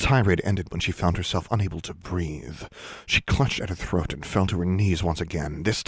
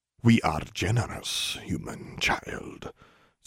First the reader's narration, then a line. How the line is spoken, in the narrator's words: Sajayaki said to her, this time in a low, menacing voice